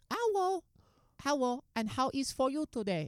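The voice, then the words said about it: Put-on Chinese male accent. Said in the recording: “speaking in an Asian accent. A Chinese oh, male.”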